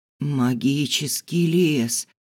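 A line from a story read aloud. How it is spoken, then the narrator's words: Barely audible rustle. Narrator (Russian): прошелестел едва слышно Ису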